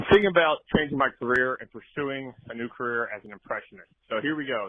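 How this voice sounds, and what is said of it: Usual voice. Nothing is said of it.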